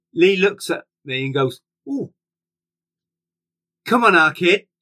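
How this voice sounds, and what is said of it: Put-on Manchester accent. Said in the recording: “in his Manchester accent.”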